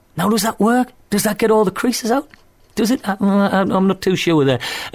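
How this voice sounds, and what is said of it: Lush accent. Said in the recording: “lush accent”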